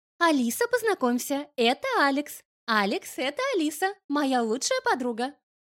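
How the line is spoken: Cheerful, sly. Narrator (Russian): веселым тоном произнесла Марианна, не скрывая хитрой ухмылки

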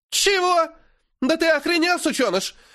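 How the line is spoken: Shrill squeal. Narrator (Russian): Взвизгивает выдра

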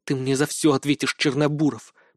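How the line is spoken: Through gritted teeth. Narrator (Russian): процедила девушка

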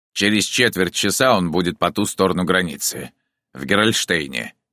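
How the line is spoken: Plain. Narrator (Russian): сказал Куно

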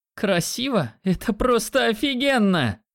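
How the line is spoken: Exclaim. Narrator (Russian): воскликнула она

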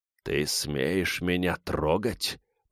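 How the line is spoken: Hissed. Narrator (Russian): прошипел парень воину

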